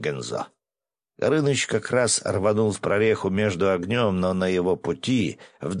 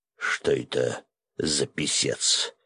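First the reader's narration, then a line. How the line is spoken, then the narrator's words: Hoarse whisper in ear. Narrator (Russian): осипшим голосом прошептал мне на ухо Свят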